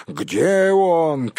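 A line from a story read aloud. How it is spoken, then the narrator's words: Shouting. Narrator (Russian): кричал один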